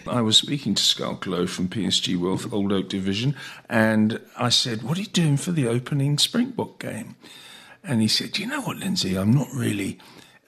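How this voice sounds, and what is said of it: Lowered, quieter voice. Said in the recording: “lower my voice”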